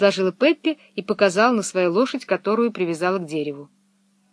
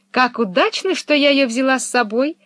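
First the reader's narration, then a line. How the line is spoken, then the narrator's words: Female exclamation. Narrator (Russian): воскликнула она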